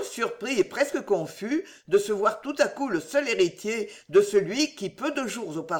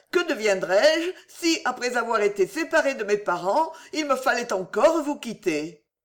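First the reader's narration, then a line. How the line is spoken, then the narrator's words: Exclaiming. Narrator (French): s'écria Clémencia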